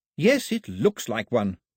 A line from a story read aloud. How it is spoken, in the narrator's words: snapped Daphne